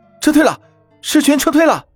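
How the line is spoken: Loud shout from walls. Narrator (Chinese): 城墙上有人高声大喊

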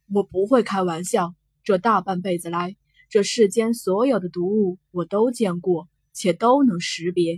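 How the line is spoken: Through gritted teeth. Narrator (Chinese): 惊鸿咬牙问

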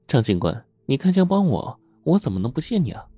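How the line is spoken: Smiling. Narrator (Chinese): 程雪梅微笑着说

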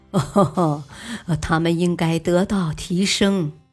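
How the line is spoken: Cheerful laughing. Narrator (Chinese): 尼克松笑呵呵地说

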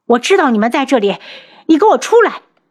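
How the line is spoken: Loud shouting. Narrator (Chinese): 大喊大叫的

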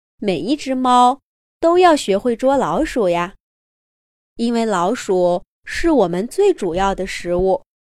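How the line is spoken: Mother, smiling. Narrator (Chinese): 妈妈笑着说

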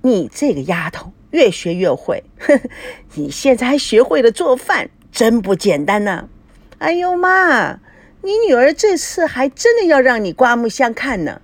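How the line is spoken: Laughing. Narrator (Chinese): 叶枫笑了

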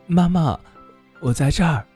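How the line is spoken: Thin little voice calling. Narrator (Chinese): 一个细细的声音喊叫道

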